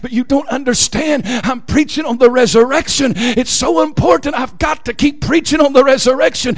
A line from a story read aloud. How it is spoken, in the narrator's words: pastor whispered and said